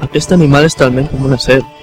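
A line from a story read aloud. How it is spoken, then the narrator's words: Deep, grave voice. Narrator (Catalan): amb una veu greu va concloure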